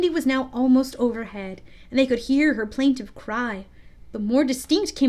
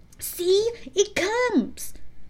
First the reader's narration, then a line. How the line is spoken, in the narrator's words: cried Curly